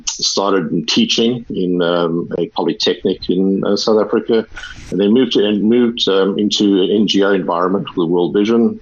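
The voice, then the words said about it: South African accent. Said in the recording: “I'm South African, as you probably will have heard from the accent”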